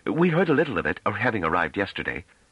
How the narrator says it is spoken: Pellaret, who had grown uneasy at Trevise's annoyed tone, put in hastily

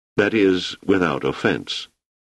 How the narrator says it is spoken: added quietly, knowing he was taking a chance

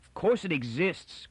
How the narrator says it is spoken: cried Miz angrily

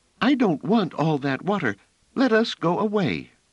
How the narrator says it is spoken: Phelim said in a half-choked manner

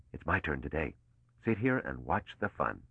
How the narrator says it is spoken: Mallow whispered

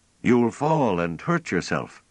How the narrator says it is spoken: Pellaret called out anxiously

